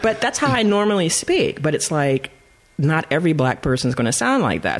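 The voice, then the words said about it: Southern California Valley Girl accent. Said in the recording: “I'm from Southern Cali. You know, I have a Valley Girl kind of twang, California.”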